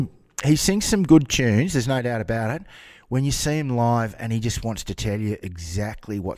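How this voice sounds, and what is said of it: Usual voice. Nothing is said of it.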